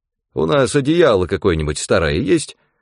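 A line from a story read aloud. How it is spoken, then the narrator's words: Plain question. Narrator (Russian): спросил он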